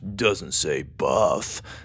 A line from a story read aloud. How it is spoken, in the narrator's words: Dallas mumbled